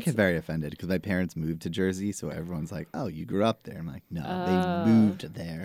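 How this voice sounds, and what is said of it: Staten Island accent. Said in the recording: “You have a Staten Island accent.”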